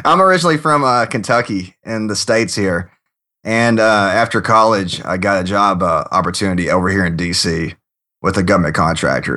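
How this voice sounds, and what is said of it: Southern US accent. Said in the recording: “you sound like that, like from the Deep South”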